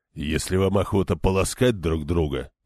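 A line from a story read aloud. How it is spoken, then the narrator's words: Grumbling. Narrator (Russian): проворчал Демандрет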